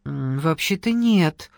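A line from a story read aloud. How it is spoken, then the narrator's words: Mumbled. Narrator (Russian): промямлил Денис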